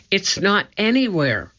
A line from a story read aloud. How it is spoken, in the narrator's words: cried Annie